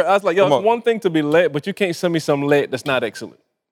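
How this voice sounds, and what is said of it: Barbadian accent. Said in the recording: “you got to take that Barbados accent out when you say it”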